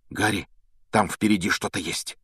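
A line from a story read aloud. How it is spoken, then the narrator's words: Sudden frightened whisper. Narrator (Russian): вдруг испуганным шепотом произнес Рон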